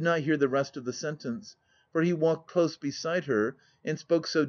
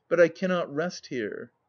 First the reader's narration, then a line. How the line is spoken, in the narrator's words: she added, with a mirthless laugh